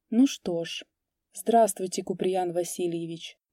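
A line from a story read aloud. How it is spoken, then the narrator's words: Quiet, hesitant. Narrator (Russian): тихо выговорила она наконец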